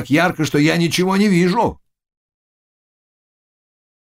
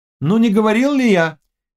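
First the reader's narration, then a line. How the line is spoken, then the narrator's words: Exclaiming. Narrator (Russian): воскликнул Володаевский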